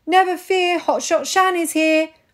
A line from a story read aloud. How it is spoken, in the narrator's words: I shouted